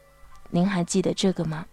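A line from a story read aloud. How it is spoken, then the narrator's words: Soft. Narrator (Chinese): 轻声地对老兵说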